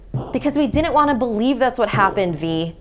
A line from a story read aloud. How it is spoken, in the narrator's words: my mother cried